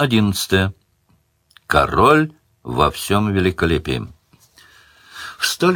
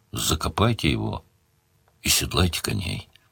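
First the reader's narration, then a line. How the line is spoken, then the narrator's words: Gruff, pitying mutter. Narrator (Russian): Ощутив смешанную с отвращением жалость, Сварог буркнул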